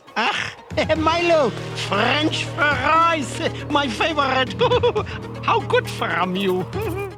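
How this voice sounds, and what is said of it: Bizarre fake German accent. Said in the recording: “maybe the weirdest fake German accent I've ever heard... It's very bizarre... It's space German”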